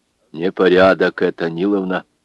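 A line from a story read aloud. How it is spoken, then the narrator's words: Stern. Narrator (Russian): строго сказал Федор Капитонович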